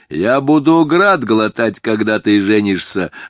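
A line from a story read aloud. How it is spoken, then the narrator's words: Reply, then laughter. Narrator (Russian): отвечал ему Рауф, и они оба расхохотались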